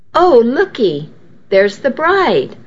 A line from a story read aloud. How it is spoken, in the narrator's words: one older lady exclaimed